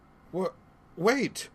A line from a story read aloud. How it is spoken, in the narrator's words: Raluv cried